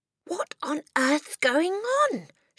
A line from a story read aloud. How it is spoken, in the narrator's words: she cried